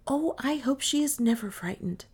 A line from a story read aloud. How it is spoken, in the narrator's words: he repeated in a whisper